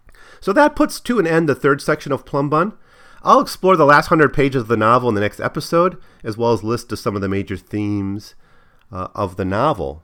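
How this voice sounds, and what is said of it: Voice slightly off. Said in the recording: “my slight, you know, recovery from a cold ... my voice is a bit off today”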